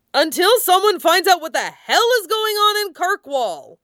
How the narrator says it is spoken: shouted a man

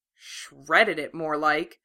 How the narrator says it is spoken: Karin muttered

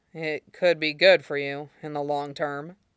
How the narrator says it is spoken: Aizawa mumbled back, barely fighting the tide of sleep

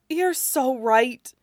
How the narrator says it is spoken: says Wei Wuxian, as he tries to gasp for air

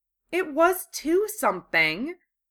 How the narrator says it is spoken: Hermione said indignantly

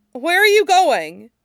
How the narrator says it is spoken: Aang blurted out

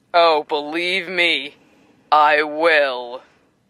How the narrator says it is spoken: Bull says with a laugh

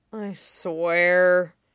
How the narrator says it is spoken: Shikari mutters

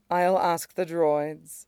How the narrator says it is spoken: she says, she can keep her voice even

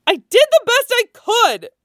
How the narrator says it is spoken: Laura shouted, her voice colored with tears

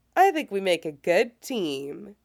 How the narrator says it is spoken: he says cheerfully

